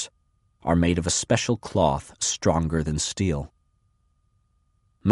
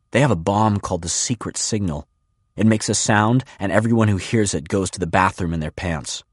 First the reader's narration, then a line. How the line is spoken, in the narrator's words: A boy blurts